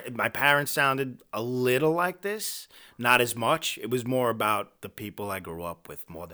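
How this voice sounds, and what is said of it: New York accent. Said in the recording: “this New York accent that you have”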